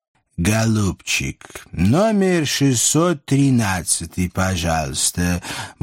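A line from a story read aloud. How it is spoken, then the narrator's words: Purring. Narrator (Russian): мурлыкнул он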